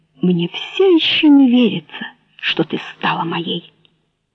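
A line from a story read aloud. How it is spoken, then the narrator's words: Quiet, delighted. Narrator (Russian): С восторгом глядя на нее, тихо сказал Савелий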